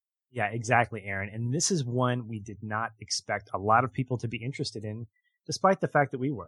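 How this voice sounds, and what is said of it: Usual voice. Nothing is said of it.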